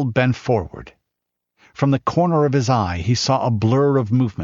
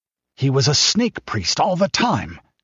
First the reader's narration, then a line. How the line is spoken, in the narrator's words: gasped the king